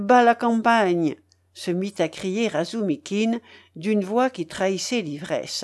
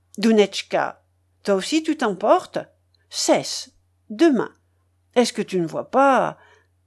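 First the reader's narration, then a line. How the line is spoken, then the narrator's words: Frightened mother stammering. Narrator (French): balbutia la mère avec effroi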